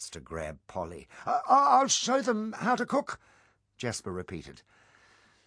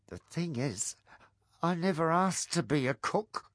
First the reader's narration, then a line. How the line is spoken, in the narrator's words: mumbled the cook